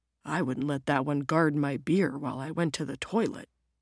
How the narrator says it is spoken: Jim mutters back

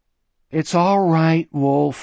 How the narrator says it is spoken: he said wearily

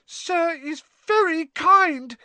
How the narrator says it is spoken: he squeaked, his eyes brimming with tears again

